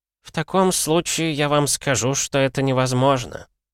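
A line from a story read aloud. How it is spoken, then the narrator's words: Gloomy. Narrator (Russian): мрачно произнес Генри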